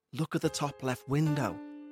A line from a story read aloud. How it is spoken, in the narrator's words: whispered